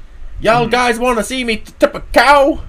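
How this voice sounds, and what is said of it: Put-on Southern hillbilly accent. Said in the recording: “put on a hick or a hillbilly voice ... comes from the southern states in Texas”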